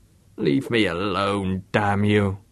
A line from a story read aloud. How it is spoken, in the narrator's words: groaned Haig, his voice indistinct beneath the rushing tap